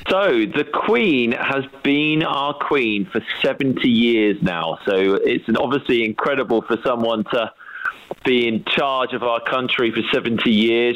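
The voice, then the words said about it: British accent. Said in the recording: “the British accent is helpful too”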